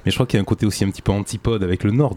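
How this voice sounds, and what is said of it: Southwestern French accent. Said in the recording (French): “l'accent ... que tu as, ... ça m'aurait étonné ... je suis originaire du sud-ouest de la France”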